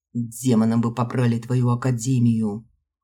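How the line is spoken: Muffled deep bass. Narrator (Russian): Глухо пробасили внутри

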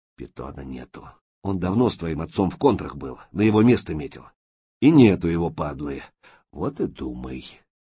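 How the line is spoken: Whispered. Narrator (Russian): Макей шепнул

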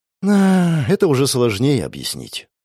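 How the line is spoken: Sighing. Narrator (Russian): вздохнула Тальена

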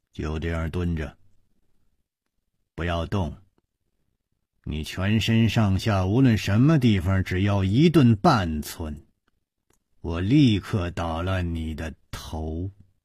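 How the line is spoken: Cold voice. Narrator (Chinese): 一个人冷冷地说

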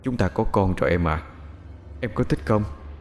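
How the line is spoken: Soft intimate whisper. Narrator (Vietnamese): thủ thỉ vào tai của Út

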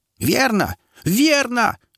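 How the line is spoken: Frenzied shriek. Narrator (Russian): завизжала оклемавшаяся, бесноватая Сара

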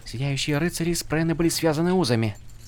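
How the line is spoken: Mumbling to herself. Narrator (Russian): пробормотала Шалан скорее самой себе

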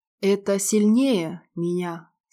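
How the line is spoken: Hoarse, doomed mutter. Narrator (Russian): сипло и обреченно пробормотал Клим

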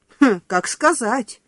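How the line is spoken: Doctor's snort. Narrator (Russian): хмыкнула врач

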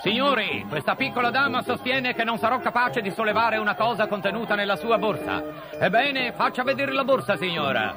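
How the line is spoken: Shouting. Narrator (Italian): Gary continuò a gridare

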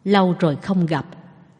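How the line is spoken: Casual greeting. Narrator (Vietnamese): theo thói quen chào hỏi

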